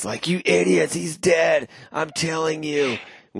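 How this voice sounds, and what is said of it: Yelling angrily. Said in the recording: “is like yelling into his ... Stop yelling.”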